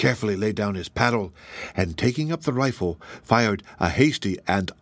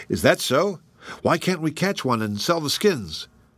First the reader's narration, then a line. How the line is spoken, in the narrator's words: exclaimed Mark